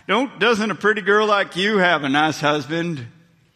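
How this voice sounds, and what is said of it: Put-on Southern US accent. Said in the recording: “I went south there, okay, on my accent.”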